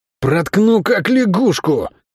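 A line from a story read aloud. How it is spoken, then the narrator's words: Hoarse threat. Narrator (Russian): Хрипло предупредил его тип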